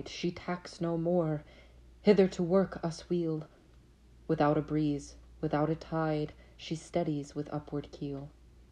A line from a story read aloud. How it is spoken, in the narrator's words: cried